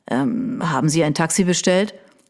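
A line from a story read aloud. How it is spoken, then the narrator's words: Mumbled around a cigarette. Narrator (German): nuschelte er mit der Kippe im Mundwinkel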